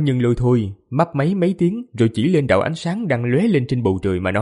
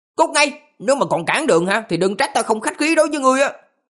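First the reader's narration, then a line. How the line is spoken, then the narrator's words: Young priest shouting angrily. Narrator (Vietnamese): Tiểu đạo sĩ liền trợn hai mắt quát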